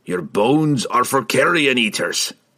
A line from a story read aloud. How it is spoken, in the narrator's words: the dwarf growled